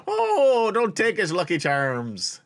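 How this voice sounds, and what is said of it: Bad put-on Irish accent. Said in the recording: “Now you're doing a terrible Irish accent ... That's terrible.”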